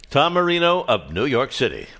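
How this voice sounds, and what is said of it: Announcer voice. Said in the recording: “that's a great announcer voice.”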